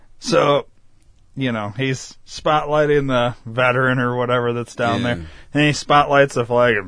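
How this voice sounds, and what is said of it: Usual voice. Nothing is said of it.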